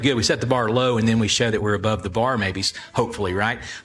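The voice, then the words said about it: Southern American accent. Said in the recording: “We sound dumber because we have a Southern American accent. Some of us have a Southern American accent.”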